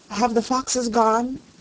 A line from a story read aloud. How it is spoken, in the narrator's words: it asked, in a trembling voice